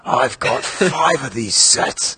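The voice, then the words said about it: Put-on English accent. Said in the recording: “I don't even know if Duncan has an accent, much less how would I do it. I'm going to pretend that Duncan is from England and he's Dengar.”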